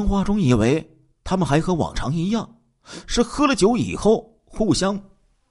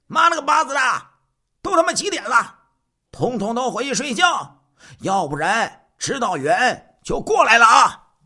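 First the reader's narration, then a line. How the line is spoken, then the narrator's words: Loud shout. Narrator (Chinese): 大声的喊道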